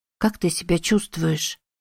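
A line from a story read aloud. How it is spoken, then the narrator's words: Soft question. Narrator (Russian): тихонько спросила Эми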